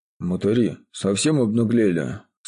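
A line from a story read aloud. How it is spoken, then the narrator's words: Surprised exhale. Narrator (Russian): Скорее даже удивленно, чем разгневанно выдохнул за спиной Барма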